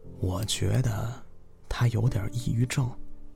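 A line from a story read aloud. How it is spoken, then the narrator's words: Hushed low voice. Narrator (Chinese): 他压低声音，以尽量不让小雅听到的音量说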